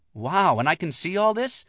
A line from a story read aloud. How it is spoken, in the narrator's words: Leah said happily